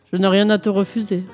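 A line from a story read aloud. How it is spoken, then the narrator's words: Plain. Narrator (French): répondit le roi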